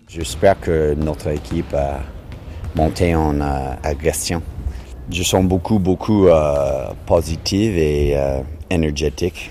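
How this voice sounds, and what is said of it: Strong foreign accent in French. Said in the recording (French): “l'entraîneur canadien ... qui s'exprime en français avec un fort accent”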